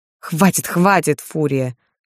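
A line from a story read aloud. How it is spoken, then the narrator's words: Laughing plea. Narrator (Russian): Смеясь взмолился Влад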